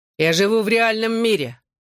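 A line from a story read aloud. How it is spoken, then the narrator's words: Angry. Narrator (Russian): зло ответил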